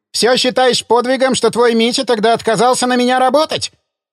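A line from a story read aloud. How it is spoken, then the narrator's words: Father shouting after her. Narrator (Russian): закричал отец ей вслед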